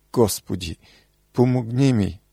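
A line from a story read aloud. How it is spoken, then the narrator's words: Tearful cry. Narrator (Bulgarian): проплака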